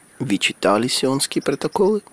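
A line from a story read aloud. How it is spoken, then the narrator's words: Quiet question. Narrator (Russian): тихо спросил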